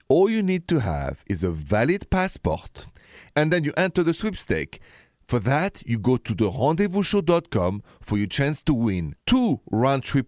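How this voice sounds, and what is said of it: French accent. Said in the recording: “the accent is straight from Paris”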